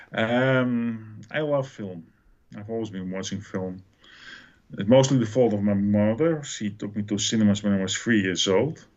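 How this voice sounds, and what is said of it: Dutch accent in English. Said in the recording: “the Netherlands. So my apologies for the accent.”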